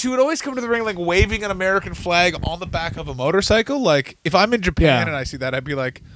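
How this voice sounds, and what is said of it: Usual voice. Nothing is said of it.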